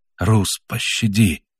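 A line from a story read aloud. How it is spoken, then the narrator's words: Whisper. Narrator (Russian): прошептал немец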